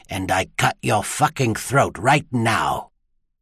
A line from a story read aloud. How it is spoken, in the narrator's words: a voice hissed in his ear